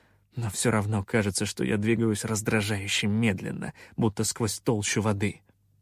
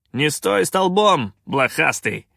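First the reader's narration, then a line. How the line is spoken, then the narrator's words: Barked. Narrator (Russian): рявкнул капитан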